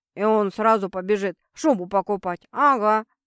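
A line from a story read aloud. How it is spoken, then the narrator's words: Grumbling mutter. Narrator (Russian): буркнула Марго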